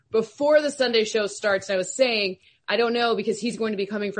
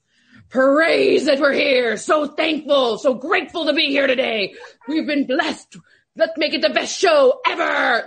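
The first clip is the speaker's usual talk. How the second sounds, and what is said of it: Imitates another person's voice. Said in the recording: “good Michael Irvin impersonations ... you do a very good one”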